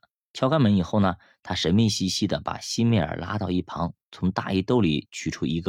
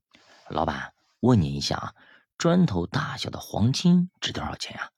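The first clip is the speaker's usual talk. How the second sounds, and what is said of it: Quiet, hushed voice. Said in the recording (Chinese): “小声”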